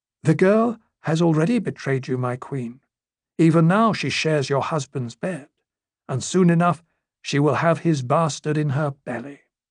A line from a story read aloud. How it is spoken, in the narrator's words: said in a soft voice